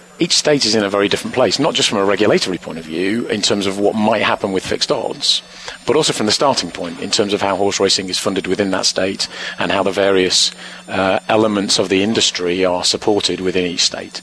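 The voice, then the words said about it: Noticeable non-American accent. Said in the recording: “you can tell from my accent, I'm relatively new to this”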